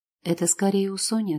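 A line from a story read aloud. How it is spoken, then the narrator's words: Too calm. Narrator (Russian): отвечает Влад, но слишком спокойно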